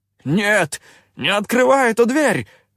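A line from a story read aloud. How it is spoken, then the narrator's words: Yelling. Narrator (Russian): заорал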